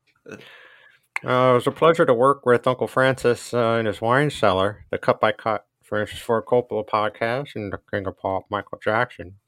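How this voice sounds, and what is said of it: Imitates another person's voice. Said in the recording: “This is George Lucas. My impression of Kyle Reinfried doing an impression of George Lucas.”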